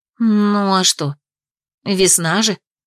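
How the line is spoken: Uncertain agreement. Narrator (Russian): Неуверенно поддержала она Трана

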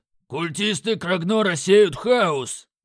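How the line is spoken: Growl. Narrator (Russian): прорычал Краг

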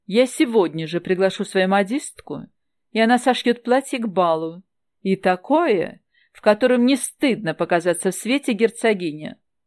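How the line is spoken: Suddenly loud, woman. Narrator (Russian): неожиданно громко произнесла женщина

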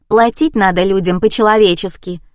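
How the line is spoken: Young woman barking. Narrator (Russian): гаркнула девица

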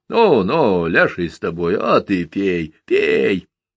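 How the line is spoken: Drunken mutter, quieter, tenser. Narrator (Russian): Все тише и напряженнее бормотал Петра, пьяно

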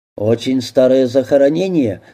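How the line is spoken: Plain. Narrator (Russian): спросил прокурор

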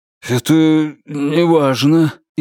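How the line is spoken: Frightened, dismissive. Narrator (Russian): испуганно отмахнулся он

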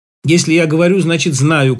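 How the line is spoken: Sudden shout. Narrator (Russian): крикнул он неожиданно

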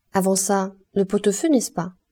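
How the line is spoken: Plain. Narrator (French): dit Gervaise

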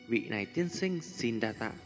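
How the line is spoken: Young, softly smiling. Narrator (Vietnamese): một khuôn mặt trẻ tuổi thành tú, đang khẽ mỉm cười

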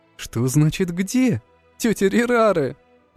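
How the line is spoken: Laughing. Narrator (Russian): Засмеялся Рыжик

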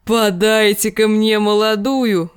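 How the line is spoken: Roar. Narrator (Russian): взревел он

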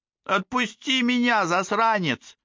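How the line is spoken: Shout. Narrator (Russian): кричал Фабиан

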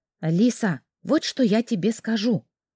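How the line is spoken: Whisper. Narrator (Russian): шепотом продолжила моя спутница

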